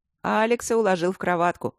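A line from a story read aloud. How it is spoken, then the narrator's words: Forced cheerful tone. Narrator (Russian): сообщил фон Сьедентент весело, но глаза его не смеялись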